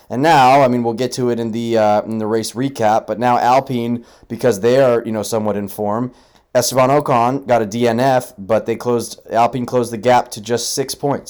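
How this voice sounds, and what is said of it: Frustrated tone of voice. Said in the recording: “You can probably hear the frustration in my voice,”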